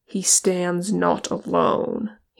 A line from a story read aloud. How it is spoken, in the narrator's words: said in a cold voice